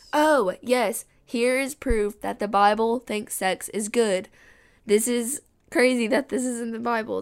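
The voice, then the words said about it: Sick, weird-sounding voice. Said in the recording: “my voice sounds weird. I've been sick. And I'm really trying not to cough.”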